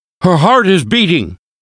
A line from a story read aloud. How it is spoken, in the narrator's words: the professor shouted, but very weakly